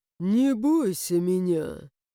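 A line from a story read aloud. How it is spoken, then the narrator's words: Sudden drawl, dragon. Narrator (Russian): Вдруг протянул дракон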